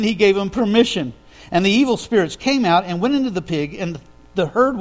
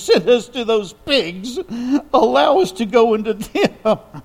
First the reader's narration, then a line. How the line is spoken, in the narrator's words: The demons begged Jesus